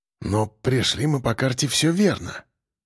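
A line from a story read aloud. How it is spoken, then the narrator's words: Muttering. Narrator (Russian): пробормотал капитан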